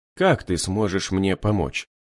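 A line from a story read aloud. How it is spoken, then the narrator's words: Muttering. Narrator (Russian): пробормотал Рябой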